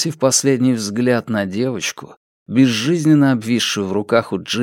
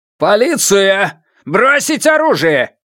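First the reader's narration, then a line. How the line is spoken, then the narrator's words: Thunderous shout. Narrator (Russian): Эти слова словно гром прогремели на весь цех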